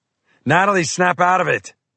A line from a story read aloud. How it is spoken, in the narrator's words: I shouted